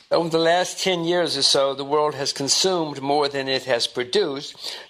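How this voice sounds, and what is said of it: Speaks with a distinct accent. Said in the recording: “a certain kind of accent”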